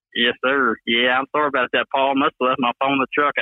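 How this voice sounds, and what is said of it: Southern Alabama accent. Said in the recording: “you Bama boys, I mean, you stick out like a sore thumb with your accent ... you really know it's me when you hear me talking ... He's a Southern boy. He's from Alabama for sure.”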